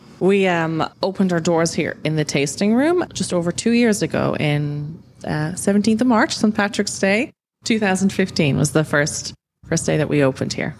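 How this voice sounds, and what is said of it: Slight mixed Irish accent. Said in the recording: “I can kind of pick up a bit of an Irish accent ... I'm from Ireland. I moved around a lot as a kid, so my accent's kind of crazy.”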